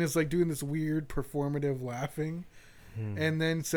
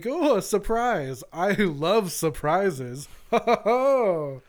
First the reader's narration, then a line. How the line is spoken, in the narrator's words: Snyder starts laughing, and he's like